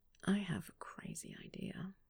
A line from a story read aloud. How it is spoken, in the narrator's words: he murmured